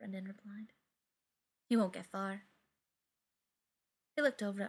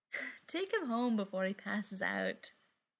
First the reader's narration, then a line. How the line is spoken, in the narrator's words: Beckett laughed